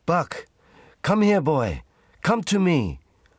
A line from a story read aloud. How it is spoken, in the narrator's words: shouted Francois